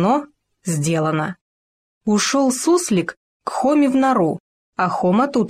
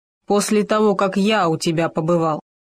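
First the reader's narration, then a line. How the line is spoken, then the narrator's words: Grumbling. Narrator (Russian): пробурчал Хома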